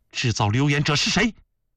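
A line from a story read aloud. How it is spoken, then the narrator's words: Sharp stern question. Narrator (Chinese): 孝庄霍地站起，厉声询问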